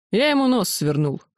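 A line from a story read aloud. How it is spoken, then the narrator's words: Snorting remark. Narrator (Russian): хмыкнул Ярый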